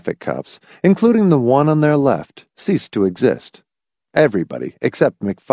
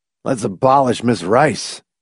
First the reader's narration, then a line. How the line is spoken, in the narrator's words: McFife said sullenly